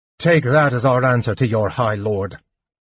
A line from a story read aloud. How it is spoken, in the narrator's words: Sturm said harshly